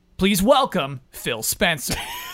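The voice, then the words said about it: Announcer voice. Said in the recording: “developing my announcer voice”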